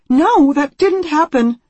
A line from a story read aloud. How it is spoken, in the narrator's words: Anne says desperately